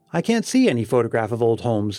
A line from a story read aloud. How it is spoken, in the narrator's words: said